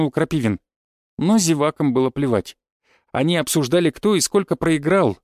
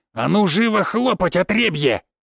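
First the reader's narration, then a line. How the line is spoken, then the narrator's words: Growl. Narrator (Russian): прорычал Крапивин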